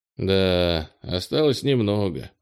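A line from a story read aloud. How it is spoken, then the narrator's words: Sighing. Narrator (Russian): вздохнул Кенни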